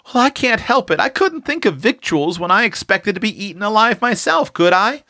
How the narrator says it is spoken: pleaded poor Prue

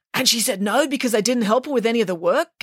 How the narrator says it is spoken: guessed Michael excitedly

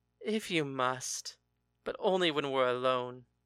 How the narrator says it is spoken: He sighed and replied

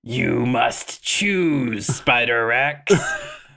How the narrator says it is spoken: Noranosorman … he hisses to Ter

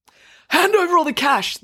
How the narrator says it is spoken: the robber yelled

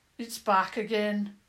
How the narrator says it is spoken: King Harold said gloomily

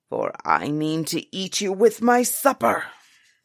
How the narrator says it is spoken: the giant bellowed

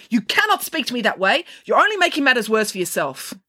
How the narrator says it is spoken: She yelled after him

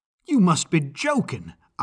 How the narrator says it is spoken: I cried

